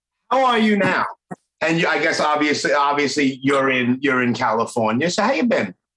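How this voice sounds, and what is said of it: Strong Brooklyn accent. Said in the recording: “Are you mocking my accent? ... even from my own Brooklyn friends. I know I have it bad. I have a bad accent. ... No, you have a great accent.”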